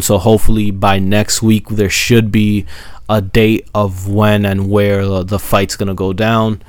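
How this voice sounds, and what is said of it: Sick, under-the-weather voice. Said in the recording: “sorry for my voice, ... I got a little bit under the weather as of late”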